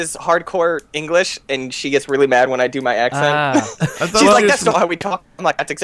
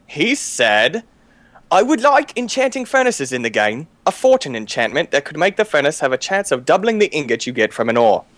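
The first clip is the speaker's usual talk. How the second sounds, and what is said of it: Put-on British accent. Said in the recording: “I didn't know you did such a great British accent”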